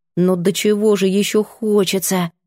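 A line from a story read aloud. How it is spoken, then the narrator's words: Mutter. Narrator (Russian): пробормотала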